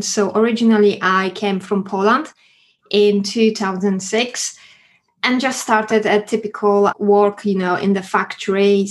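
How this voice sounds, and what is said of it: Foreign-accented English speech. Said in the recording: “you could hear my accent”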